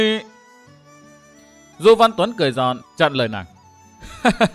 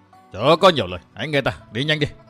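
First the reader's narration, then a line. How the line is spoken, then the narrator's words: Shouted command. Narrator (Vietnamese): Ôn Hoàng Khai quát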